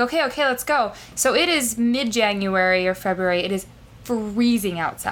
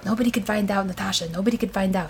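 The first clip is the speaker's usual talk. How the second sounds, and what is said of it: New York Hasidic accent. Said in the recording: “Is he Eastern European? ... He's Hasidic. ... Oh, the New York Hasid accent, sure.”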